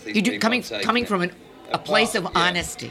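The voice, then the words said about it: Put-on American accent. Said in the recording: “I said that in an American accent.”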